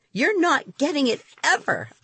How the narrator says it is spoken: cried

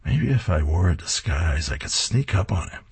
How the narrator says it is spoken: He's muttering to himself

